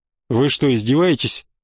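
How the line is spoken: Angry question. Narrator (Russian): зло спросил президент

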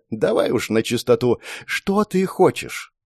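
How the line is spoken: Sighing, heavily accented Russian. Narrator (Russian): Архивариус вздохнул и заговорил, не на местном, а по-русски, хотя и с сильным акцентом

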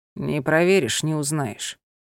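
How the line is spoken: Tired and calm. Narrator (Russian): Анхель наконец взглянул на нее устало и спокойно произнес

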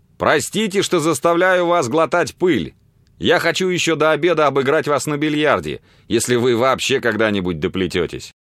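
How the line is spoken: Cheerful shout. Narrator (Russian): весело крикнул ему

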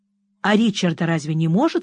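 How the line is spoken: Plain. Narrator (Russian): спросила я

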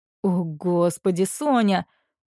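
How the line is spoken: Groaning. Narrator (Russian): простонал он

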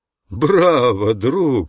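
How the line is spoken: Laughing. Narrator (Russian): рассмеялся Ананда

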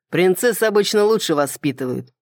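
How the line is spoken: Snide smirking dragon. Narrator (Russian): ехидно усмехнулся дракон

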